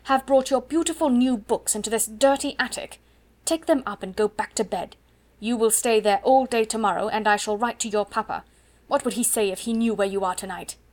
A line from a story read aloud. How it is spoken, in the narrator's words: turn on her fiercely